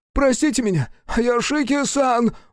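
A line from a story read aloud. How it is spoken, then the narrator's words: Wailed. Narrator (Russian): взвыл Сансуке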